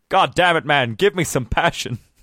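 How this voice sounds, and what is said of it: A poor impression of Kirk. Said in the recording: “Is that your Kirk impression? ... Yeah, it's terrible.”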